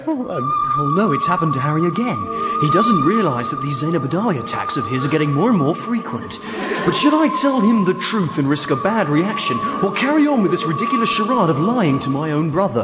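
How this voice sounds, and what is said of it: Funny put-on voice. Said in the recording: “That funny voice.”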